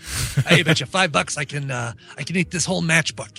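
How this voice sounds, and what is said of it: Comic impression of another person. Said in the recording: “impression is shockingly similar to your Eric Paul impression.”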